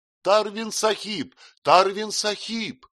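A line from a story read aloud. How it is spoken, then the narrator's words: Thin-voiced shout. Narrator (Russian): тонким голоском кричал Магарадж Кунвар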